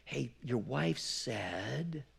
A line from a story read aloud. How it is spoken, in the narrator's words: some servant whispers in Pilate's ear saying